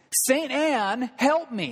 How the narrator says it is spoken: as he is faced with the dread of this thunderstorm, almost at the brink of despair, cried out

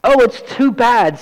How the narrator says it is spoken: sobbed Lucy

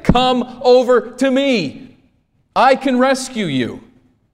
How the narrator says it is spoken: you announce it and yell it and scream to say

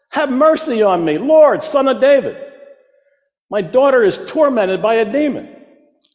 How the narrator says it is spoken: she came shouting

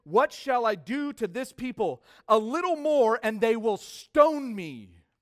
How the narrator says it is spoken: Moses cried out to the Lord saying

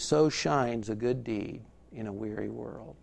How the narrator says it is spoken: Willy Wonka turns and says quietly

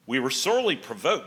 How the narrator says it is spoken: said Jewel

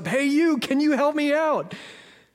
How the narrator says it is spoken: the guy shouts up

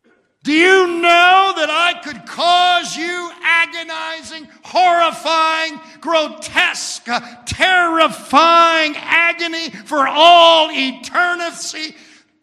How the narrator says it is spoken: Satan roared at him

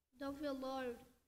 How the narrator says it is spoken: said

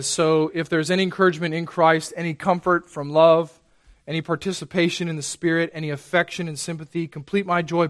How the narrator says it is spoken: Paul says

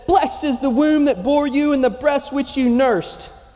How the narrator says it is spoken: a woman in the crowd, she raised her voice and said

